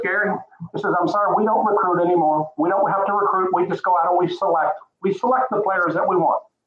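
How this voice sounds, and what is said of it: Imitates another person's voice. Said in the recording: “that's my Mac Brown impersonation.”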